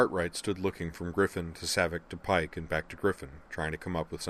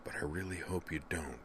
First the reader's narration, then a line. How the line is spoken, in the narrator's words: added in an undertone